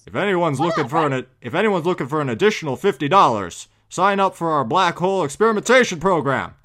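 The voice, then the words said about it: Poor impression of a game character. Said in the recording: “my Cave Johnson impression. Terrible.”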